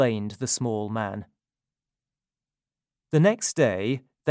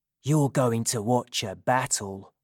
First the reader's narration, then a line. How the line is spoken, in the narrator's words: Tabby whispered to Jonathan